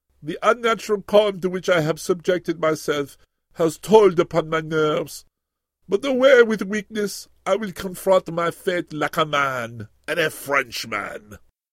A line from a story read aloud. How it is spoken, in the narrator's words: When he came to, he said mournfully